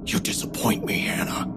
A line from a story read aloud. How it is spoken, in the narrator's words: he whispered, so softly only I could hear